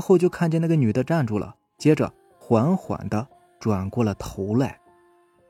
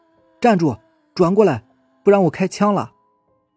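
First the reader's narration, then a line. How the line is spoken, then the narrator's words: Shouting. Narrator (Chinese): 大喊着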